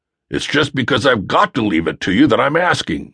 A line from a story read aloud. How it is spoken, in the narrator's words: replied rather testily